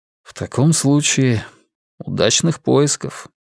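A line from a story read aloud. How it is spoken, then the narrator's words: Quiet. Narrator (Russian): тихо ответил он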